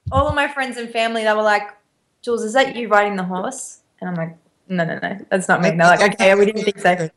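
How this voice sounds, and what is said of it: Australian accent with American touches. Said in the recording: “your accent keeps switching from American back to Australian ... you say so many things as Americans do, and then, of course, you have the Aussie accent.”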